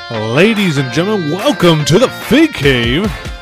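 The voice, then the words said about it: Sports announcer style delivery. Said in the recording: “talking like a sports announcer”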